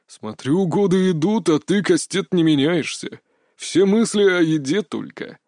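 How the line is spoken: Chuckling father. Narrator (Russian): хохотнул от двери отец

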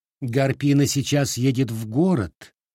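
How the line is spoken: Plain. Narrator (Russian): сказала она

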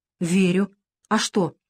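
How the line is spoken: Frightened, trembling. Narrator (Russian): придерживая задрожавший подбородок, испуганно ответила Лена

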